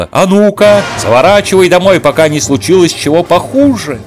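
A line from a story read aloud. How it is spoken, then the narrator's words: Woman shouting. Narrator (Russian): крикнула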